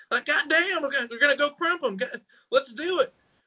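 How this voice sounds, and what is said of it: Caricatured Florida Panhandle Southern accent. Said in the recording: “British equivalent of like the Florida Panhandle accent ... from that part of the world, like Southern Alabama Panhandle ... not that caricature and hyperbolized”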